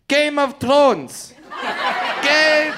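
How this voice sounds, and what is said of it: Yelled with French accent. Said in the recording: “just yells out in the French accent”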